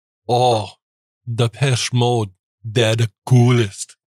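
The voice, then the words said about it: Weak Polish accent, like Arnold Schwarzenegger. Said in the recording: “I'm not good. I don't have a Polish accent ... You sound like Arnold Schwarzenegger right now ... sound like Arnold right there”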